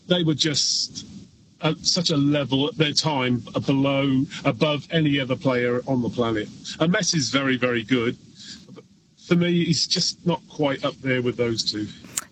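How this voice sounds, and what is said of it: Speaks with a slight accent. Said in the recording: “I hear a bit of an accent.”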